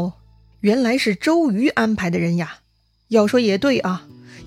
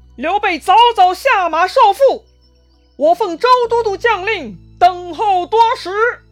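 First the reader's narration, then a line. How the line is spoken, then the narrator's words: Loud shouting. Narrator (Chinese): 两员大将 在路边大喊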